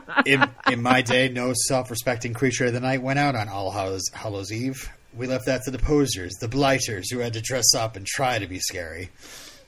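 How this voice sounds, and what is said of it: Imitates a TV character's voice. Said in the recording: “my great Spike impression ... It's uncanny.”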